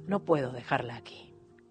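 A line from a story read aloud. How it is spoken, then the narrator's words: Trembling voice. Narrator (Spanish): dije con la voz temblando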